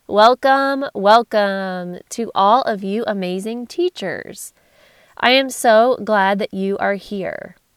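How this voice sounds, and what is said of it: Congested, nasal voice. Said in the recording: “I'm going through a sinus infection, so very congested and nasally”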